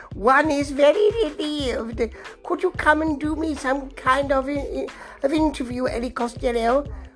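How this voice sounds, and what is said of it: Bad impression of the Queen. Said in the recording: “the Queen's going to hang out of one of the windows and shout ... So it's a bad impression.”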